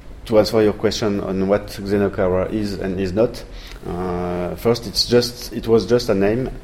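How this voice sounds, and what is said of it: French accent in English. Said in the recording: “I'm a French guy, you will hear it with my English accent”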